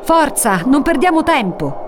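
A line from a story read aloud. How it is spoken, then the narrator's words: Shouted in turns. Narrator (Italian): gridano a turno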